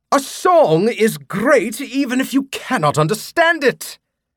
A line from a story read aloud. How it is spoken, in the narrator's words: Morleone exclaimed